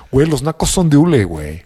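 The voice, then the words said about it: Put-on posh Mexican fresa accent. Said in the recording (Spanish): “en acento fresco”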